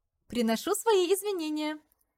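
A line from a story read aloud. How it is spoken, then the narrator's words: Laughing. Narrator (Russian): засмеялась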